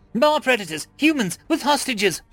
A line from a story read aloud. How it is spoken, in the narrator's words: she spat